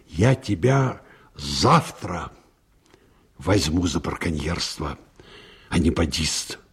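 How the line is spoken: Harsh and menacing. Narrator (Russian): жестко и грозно сказал

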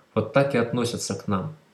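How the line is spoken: Sad. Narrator (Russian): грустно сказал Павел Петрович

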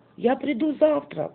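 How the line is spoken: Shouting after someone. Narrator (Russian): крикнул он вслед удалявшемуся мальчику

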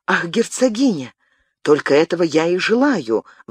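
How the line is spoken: Exclaimed. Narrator (Russian): воскликнул Габриэль

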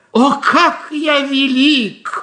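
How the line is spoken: Shouting. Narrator (Russian): он кричал

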